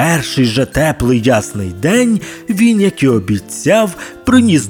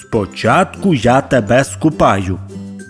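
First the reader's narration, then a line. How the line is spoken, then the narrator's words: Plain. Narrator (Ukrainian): сказав він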